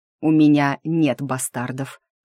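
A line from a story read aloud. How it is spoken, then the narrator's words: Angry words through teeth. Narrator (Russian): зло процедил я в ответ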